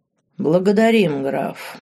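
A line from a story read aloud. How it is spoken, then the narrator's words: Cold. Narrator (Russian): холодно кивнул герцог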